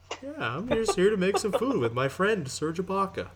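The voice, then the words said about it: Impression of Chef Michael Smith. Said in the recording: “It might not have been the best Michael Smith impression, but whatever. ... Not your best.”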